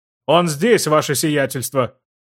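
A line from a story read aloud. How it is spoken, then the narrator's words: Yelled. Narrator (Russian): завопил знакомый голос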